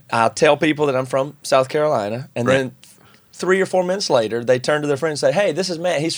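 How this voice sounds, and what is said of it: Regional American accent. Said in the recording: “good on you for keeping your accent ... it just feels it's the way I talk”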